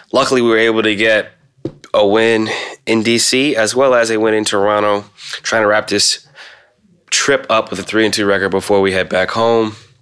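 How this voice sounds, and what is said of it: Sick, congested voice. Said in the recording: “As you can tell from my voice, I'm still recovering from sickness.”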